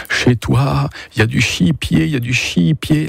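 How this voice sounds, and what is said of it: Strong regional French accent. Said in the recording (French): “L'accent, l'accent très prononcé”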